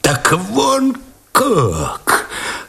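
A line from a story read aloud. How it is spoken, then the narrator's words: Sudden sinking voice. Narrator (Russian): опадающим голосом вдруг произнес Овчинников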